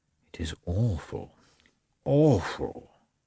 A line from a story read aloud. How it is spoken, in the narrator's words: he muttered